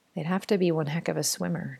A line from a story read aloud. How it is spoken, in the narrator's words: Jordan murmured